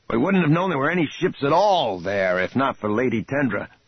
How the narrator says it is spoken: Lando said sharply

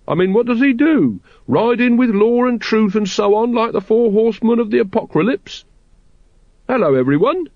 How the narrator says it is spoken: he squeaked

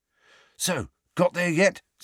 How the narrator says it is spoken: said George eagerly

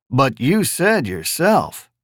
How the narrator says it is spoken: the reporter purred

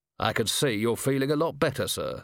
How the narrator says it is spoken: said Vimes stiffly

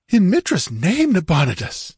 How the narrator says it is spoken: gasped Murillo, shaken

